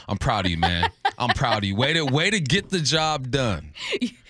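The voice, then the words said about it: Put-on proud dad voice. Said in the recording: “I had my dad voice on ... So now the dad voice”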